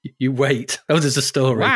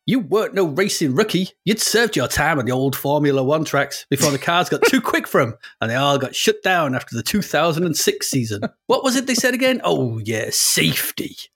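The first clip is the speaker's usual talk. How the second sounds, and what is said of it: Put-on American accent. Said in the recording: “You have to read it in this accent. ... It's somewhere in America.”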